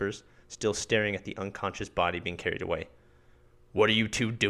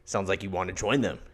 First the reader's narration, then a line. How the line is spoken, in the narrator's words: he growls